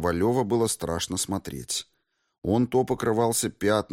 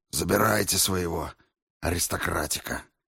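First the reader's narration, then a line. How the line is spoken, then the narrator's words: Calm, tired. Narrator (Russian): чиновник успокоился и устало произнес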